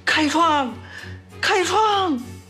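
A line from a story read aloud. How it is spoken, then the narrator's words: Desperate shouting. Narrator (Chinese): 槐花 拼命地呼喊着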